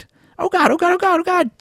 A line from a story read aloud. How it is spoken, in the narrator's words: He squeaked